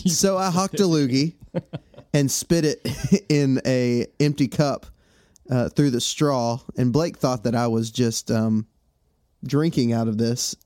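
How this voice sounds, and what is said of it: Congested, stuffy-nosed voice. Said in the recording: “my voice is... not 100%, and my nose has stopped up. It's terrible sinus issues”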